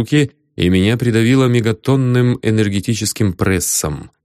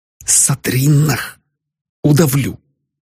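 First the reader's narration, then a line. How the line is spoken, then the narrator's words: Hissed. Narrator (Russian): смог прошипеть я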